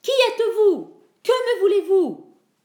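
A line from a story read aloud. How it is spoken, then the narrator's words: Shouting. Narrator (French): cria-t-il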